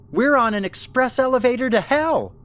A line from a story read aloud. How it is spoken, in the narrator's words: Ellen shouted